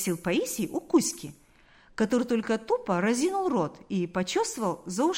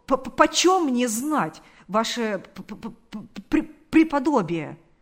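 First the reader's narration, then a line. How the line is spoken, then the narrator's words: Stammering. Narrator (Russian): сказал он, запинаясь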